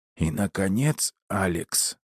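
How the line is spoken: Happy hoarse rasp. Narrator (Russian): прохрипела она со счастливым лицом

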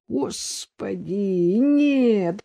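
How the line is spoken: Foreboding groan. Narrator (Russian): простонал Дедков, уже предчувствуя, что из всего этого получилось

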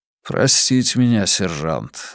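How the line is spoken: Sighing. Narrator (Russian): Дессоя вздохнул

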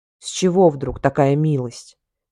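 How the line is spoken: Irritated growl. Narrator (Russian): зарычал он раздраженно

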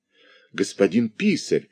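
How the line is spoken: Agitated speech. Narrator (Russian): взволнованно сказал бургомистр

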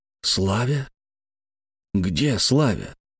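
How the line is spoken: Strained, forced out. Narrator (Russian): С трудом выдавил я

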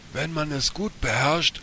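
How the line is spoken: Pelican calling. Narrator (German): rief der Pelikan

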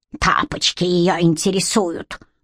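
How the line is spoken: Grumbled. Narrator (Russian): буркнул Петька

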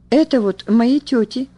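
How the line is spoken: Calm girl's reply. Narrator (Russian): спокойно отвечала девочка

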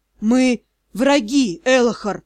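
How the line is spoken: Moaned. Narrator (Russian): простонал

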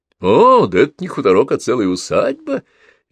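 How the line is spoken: Cheerful father. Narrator (Russian): весело сказал отец

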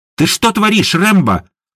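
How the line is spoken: Shouted. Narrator (Russian): крикнула Едвига

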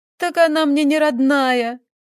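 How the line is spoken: Sobbing young woman. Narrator (Russian): продолжала рыдать девушка

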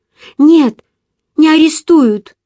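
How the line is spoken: Exclamation. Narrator (Russian): воскликнула я

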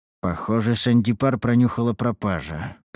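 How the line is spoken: Muttering to himself. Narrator (Russian): пробормотал я про себя

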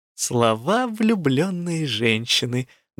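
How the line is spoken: Contented purr. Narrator (Russian): довольно промурлыкала Элла

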